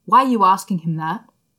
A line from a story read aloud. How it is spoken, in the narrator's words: He snapped